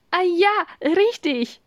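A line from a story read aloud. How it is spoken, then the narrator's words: Laughing reply. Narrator (German): erwiderte Farah lachend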